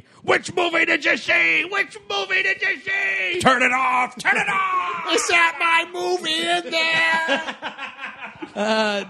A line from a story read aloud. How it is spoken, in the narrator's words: yelled at